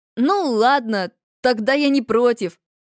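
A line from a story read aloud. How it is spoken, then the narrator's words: Answer, then laughing. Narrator (Russian): ответил он и рассмеялся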